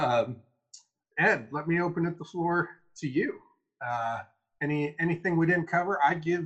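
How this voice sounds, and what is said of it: Usual voice. Nothing is said of it.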